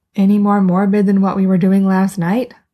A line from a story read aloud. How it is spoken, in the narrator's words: asks Sarah